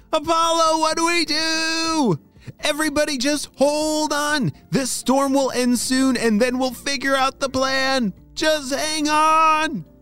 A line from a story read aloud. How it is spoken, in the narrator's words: shouted Apollo